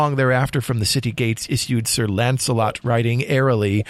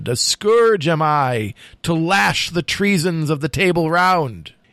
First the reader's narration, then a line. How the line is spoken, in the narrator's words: he shouted